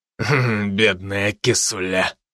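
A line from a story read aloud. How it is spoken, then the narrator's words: Mocking snort. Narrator (Russian): насмешливо хмыкнул он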